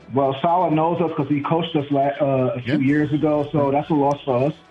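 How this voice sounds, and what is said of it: New York accent. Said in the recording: “the way you said "unfortunately" means you're from my neck of the woods... Are you a Queens guy?... I can hear it from your accent.”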